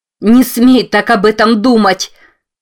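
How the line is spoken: Sudden shout. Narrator (Russian): Вдруг закричала она

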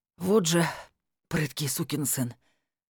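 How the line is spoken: Wheezed, doubled over. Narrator (Russian): Согнувшись пополам, прохрипел Валера

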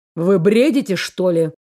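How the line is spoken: Rude question. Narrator (Russian): Грубо осведомился Дэниэль

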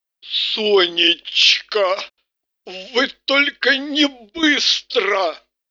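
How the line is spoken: Mumbled. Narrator (Russian): вместо приветствия промямлил он

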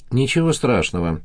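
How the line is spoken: Soothing tone. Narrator (Russian): успокоительным тоном произнесла она

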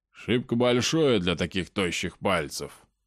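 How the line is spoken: Snorting. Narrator (Russian): хмыкнул он

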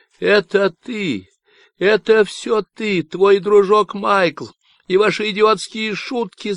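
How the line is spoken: Shouting. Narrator (Russian): закричала

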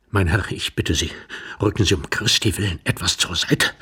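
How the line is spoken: Whispered. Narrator (German): flüsterte Iwan Andrejewitsch

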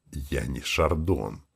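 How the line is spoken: Sharp, ashamed whisper. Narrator (Russian): Так же шепотом ответил я, резко и стыдливо

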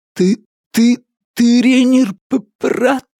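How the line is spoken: Mumbling. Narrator (Russian): промямлил Слопи

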